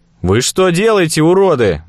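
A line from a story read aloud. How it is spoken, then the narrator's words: Yelled. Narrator (Russian): заорал я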